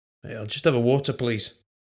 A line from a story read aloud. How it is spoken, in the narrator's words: Scribe grunted